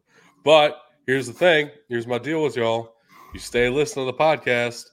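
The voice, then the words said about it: Congested, stuffy-nosed voice. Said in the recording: “I am congested ... I sound terrible.”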